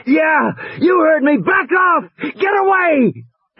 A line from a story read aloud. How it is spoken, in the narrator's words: Regis was shouting